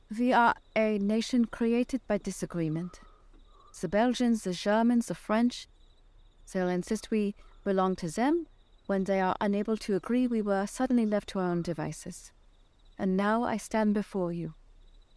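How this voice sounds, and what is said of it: Put-on Luxembourgish ambassador accent. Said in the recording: “pretending to be the ambassador from Luxembourg ... I did the accent and everything”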